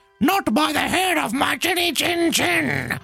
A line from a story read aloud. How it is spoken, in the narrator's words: he was a bit more raspy, said